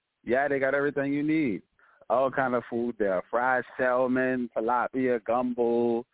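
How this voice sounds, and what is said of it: Noticeable regional accent. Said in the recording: “you got the accent going on. I love it.”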